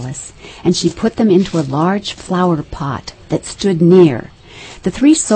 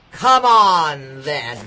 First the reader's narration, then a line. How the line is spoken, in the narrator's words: roared the queen